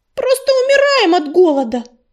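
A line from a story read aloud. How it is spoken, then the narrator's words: Wailing yell. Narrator (Russian): завопила Белочка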